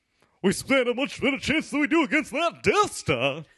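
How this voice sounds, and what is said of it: Poor Lando Calrissian impression. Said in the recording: “do an impression of Lando Calrissian ... That's a pretty bad Lando.”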